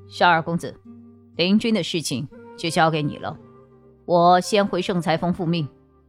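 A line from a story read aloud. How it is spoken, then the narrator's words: Cold. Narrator (Chinese): 木子爷冷冷地说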